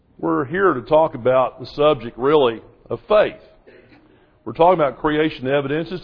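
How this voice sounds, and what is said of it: Southern American accent. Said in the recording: “Some places I go don't speak Southern, so I understand probably you all works down here.”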